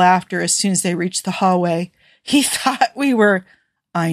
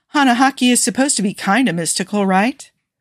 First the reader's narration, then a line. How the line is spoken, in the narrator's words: Steve sighed